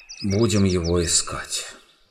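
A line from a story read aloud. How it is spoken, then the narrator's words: Tired. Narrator (Russian): устало сказал Каспиан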